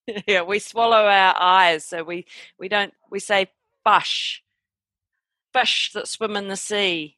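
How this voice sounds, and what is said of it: New Zealand accent. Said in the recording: “I love hearing your New Zealand accent.”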